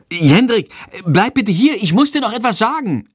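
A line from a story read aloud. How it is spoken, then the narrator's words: Calls out. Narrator (German): ruft sie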